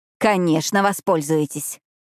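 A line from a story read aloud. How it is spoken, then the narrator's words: Growled. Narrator (Russian): прорычала я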